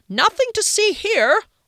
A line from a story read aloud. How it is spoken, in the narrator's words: yelled